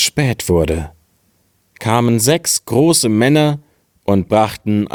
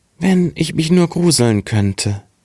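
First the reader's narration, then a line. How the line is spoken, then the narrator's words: Very sad. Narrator (German): sprach ganz traurig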